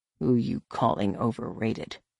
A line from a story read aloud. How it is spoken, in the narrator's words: Han muttered